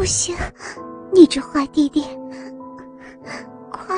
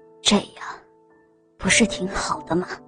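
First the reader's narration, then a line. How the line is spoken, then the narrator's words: Breathless, weak. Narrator (Chinese): 陈荣一边娇喘一边无力地说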